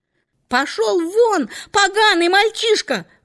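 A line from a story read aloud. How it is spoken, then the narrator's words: Shrill shriek. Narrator (Russian): взвизгнула Катенька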